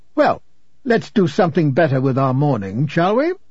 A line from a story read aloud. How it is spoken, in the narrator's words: this interviewer snapped shut his steno pad and said